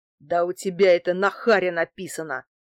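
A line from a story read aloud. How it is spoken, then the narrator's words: Growl. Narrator (Russian): прорычал Герыч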